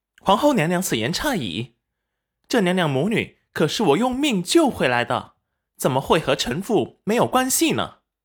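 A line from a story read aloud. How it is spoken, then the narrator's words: Cold smile. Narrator (Chinese): 戚云染冷漠一笑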